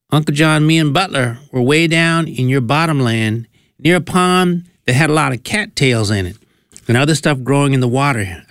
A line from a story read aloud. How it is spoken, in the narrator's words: I replied